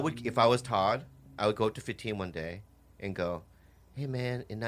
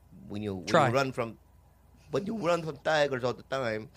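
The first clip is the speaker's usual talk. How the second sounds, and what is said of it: Weak attempt at Nigerian accent. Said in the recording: “I don't know how to do a Nigerian accent ... That's the exact same accent you do for like everything”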